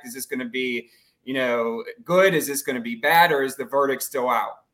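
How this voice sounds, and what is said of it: Strong Pittsburgh Yinzer accent. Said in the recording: “The Yinzer like uh, accent ... That was that was the strongest yeah. accent of the two of you ... the strong accent”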